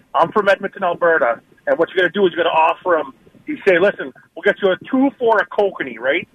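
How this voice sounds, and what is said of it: Boston-area Medford accent. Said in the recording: “You sound like you're from Medford. You don't sound like you're from ... Medford. Yeah, you don't sound like you're from Alberta.”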